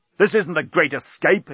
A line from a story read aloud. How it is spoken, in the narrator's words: exclaimed Bolfas